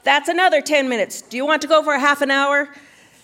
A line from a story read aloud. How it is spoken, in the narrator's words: he yelled